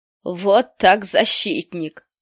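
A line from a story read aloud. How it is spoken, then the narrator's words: Rough laughing sergeant. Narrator (Russian): грубо расхохотался сержант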